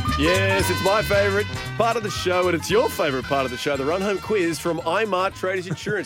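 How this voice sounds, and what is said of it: Showy circus-announcer delivery. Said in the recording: “talk like a circus performer”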